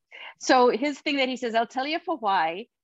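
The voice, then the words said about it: Put-on Welsh accent. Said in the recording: “I'll tell you for why it is a Welsh thing... that was actually good accent. Fair play.”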